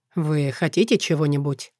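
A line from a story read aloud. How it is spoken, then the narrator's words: Soft question, king. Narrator (Russian): мягко спросил король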